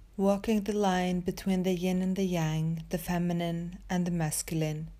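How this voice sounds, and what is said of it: Norwegian accent. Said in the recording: “that Norwegian accent”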